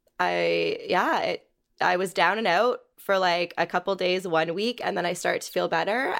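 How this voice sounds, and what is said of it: Sick voice from a cold. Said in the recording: “I've been sick. ... I'm sure you can hear it in my voice. ... I got a cold ... the cough isn't fully gone, my voice isn't fully”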